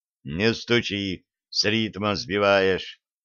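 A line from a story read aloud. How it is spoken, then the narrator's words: Annoyed grumbling. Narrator (Russian): досадливо пробурчал мага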